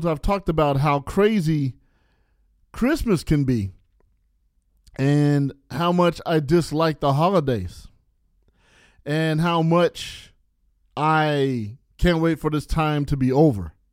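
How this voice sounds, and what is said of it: Slightly slurred, tipsy speech. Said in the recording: “I'm slurring my words a little bit ... this drink is really good ... I had like 3 or 4 beers”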